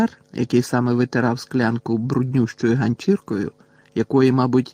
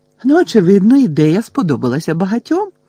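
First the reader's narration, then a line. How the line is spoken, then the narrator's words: Joyful chirping. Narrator (Ukrainian): радісно прощебетала Герміона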